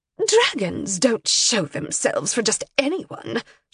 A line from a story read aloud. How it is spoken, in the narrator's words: said sharply